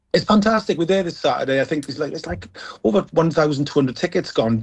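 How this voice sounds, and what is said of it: South Welsh accent. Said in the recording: “I'm from South Wales. I'm from Merthyr Tydfil, as you can tell by the accent.”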